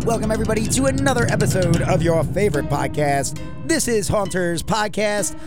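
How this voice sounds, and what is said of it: Raspy, recovering voice. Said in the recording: “your voice sounds still a little raspy... yours sounds real raspy... I definitely still have the rasp to it... I'm still recovering”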